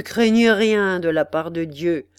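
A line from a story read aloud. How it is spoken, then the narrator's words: Sneering. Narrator (French): dit Hackett en ricanant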